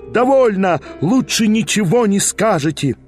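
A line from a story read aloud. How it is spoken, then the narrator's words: Crowd yelling, women shouting. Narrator (Russian): Вопили, даже иные из дам кричали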